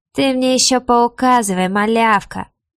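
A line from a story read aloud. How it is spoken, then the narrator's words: Mocking retort. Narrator (Russian): насмешливо бросил тот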